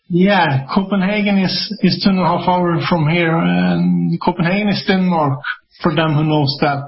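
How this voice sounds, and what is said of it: Scandinavian accent. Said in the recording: “you have an accent, and I love your accent ... you're about, what, 2.5 hours outside of Copenhagen”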